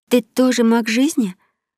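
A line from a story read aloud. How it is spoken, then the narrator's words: Stammering question. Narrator (Russian): запинаясь, спросила она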